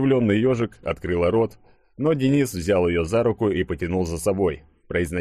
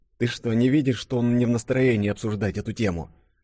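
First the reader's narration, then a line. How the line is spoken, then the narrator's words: Whisper in ear. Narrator (Russian): уже шепотом Юле на ухо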